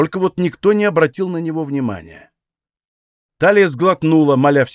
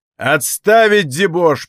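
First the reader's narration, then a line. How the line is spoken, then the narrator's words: Thundering shout. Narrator (Russian): прогремел на всю таверну усиленный криком голос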